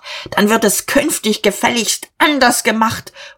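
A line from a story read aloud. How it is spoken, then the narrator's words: Shouting. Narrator (German): Er schrie noch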